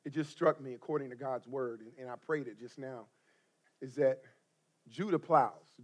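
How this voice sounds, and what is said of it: Hoarse, strained voice. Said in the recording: “I'm losing my voice. I was shouting.”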